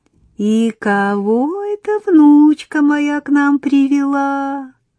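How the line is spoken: Velvety singsong. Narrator (Russian): пропела старушка бархатным голосом

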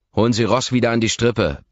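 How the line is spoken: Barking harshly. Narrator (German): belle ich sie an

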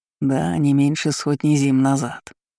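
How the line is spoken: Snort. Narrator (Russian): хмыкнул он

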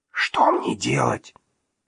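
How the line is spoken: Whisper from behind. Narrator (Russian): зашептал сзади стажер

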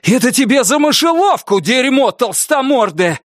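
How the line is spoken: Shouted. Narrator (Russian): крикнул Норрис

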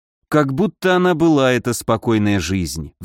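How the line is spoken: Weary sigh. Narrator (Russian): вздохнул я

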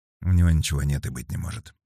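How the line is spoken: Muttered. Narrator (Russian): пробормотал Кейн

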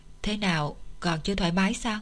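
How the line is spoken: Gentle question. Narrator (Vietnamese): Chu Từ Hàng ... dịu dàng hỏi

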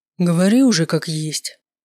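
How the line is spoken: Sighing. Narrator (Russian): вздохнул Маркус

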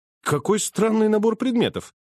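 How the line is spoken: Exclaiming. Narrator (Russian): воскликнул я

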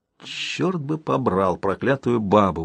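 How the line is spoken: Grumbling. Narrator (Russian): ворчал Распе

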